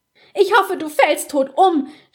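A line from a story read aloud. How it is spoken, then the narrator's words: Screaming while dragged away. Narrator (German): schrie sie, als Basta sie aus dem Zimmer zerrte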